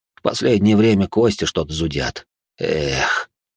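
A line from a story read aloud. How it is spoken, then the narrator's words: Heavy old-man sigh. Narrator (Russian): Он тяжело и как-то постарчески вздохнул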